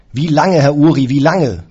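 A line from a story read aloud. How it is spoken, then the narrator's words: Bellowing. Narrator (German): brüllte ich noch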